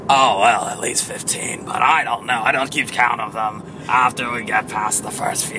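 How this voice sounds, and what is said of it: Hoarse, partly lost voice. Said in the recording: “right after I demo, seems I lost my voice a little bit.”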